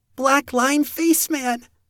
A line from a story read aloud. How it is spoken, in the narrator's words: Ivy cried out